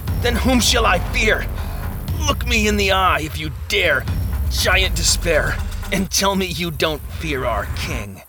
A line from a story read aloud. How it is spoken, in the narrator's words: Hopeful grinded through his teeth